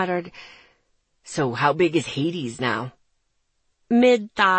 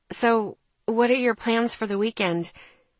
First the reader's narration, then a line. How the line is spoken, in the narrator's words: He sighed